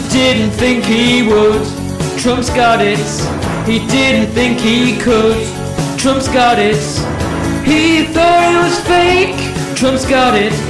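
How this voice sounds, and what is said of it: Sung impression of a singer. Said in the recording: “that's my best impression of Roy Orbison ... Very good, very good.”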